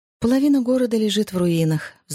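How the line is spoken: Sighing. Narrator (Russian): вздохнула Джози

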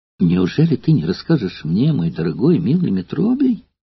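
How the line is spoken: Pleading. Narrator (Russian): упрашивала Эвтибида

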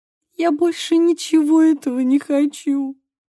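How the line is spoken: Sobbing. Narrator (Russian): всхлипнула Мия

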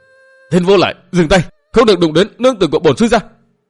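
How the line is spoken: Roaring angrily. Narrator (Vietnamese): Trí Bình gầm lên

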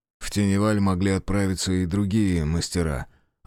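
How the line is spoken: Sudden grumble. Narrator (Russian): внезапно проворчал Грейден

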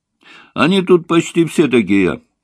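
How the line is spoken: Loud answer. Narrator (Russian): громко ответил Ваня

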